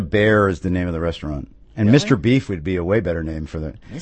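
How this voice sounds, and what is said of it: Usual voice. Nothing is said of it.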